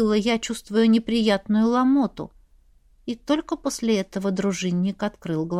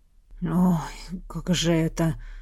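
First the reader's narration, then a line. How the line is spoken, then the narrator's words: Gloomy male mutter. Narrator (Russian): Угрюмо пробормотал он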